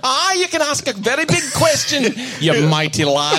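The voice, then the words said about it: Put-on Glasgow Scottish accent. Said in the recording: “they decided to give it a Scottish accent ... Of all the accents you were going to give a sex robot, would it be Glasgow?”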